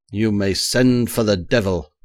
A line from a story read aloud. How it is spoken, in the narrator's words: I cried, now thoroughly enraged, the wine getting the better of me